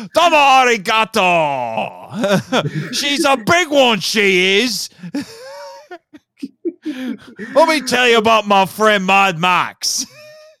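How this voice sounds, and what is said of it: Poor put-on Australian accent, Cockney-ish. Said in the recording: “My Aussie accent is terrible ... it's kind of getting into Cockney a little bit”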